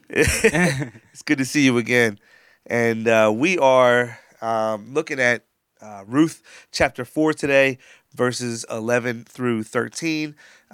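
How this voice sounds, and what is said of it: Nasal, congested voice. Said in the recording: “I a little under the weather. My voice sounds a little nasally”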